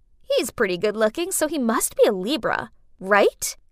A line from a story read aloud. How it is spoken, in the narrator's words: I chuckled